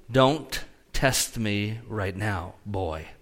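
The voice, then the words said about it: Calm, quiet stern delivery. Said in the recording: “I always say it so calmly like that.”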